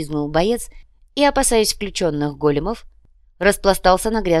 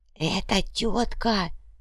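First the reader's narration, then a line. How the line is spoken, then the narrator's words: Whispering. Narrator (Russian): прошептал иголка замершему уйбую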